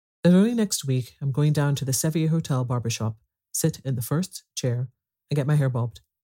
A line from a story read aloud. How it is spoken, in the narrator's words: she continued, her voice rising slightly